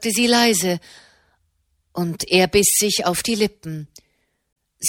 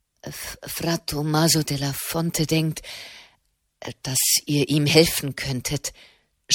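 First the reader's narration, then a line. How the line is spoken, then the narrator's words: Stammering. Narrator (German): stammelte er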